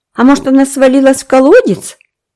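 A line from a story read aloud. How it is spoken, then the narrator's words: Cheerful guess. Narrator (Russian): предположил Дэви радостно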